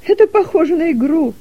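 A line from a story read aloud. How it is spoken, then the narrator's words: Laughing. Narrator (Russian): засмеялась Дилека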